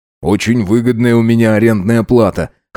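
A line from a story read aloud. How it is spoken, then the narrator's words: Amused grunt. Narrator (Russian): хмыкнул Макс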